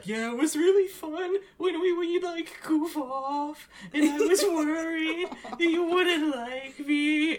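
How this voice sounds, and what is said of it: Silly put-on voice. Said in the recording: “I'm doing a silly voice,”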